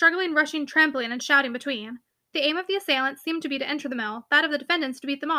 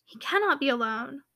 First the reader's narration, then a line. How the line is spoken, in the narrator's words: whispered Caroline